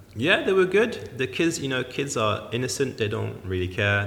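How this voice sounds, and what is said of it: French accent. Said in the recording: “your French accent”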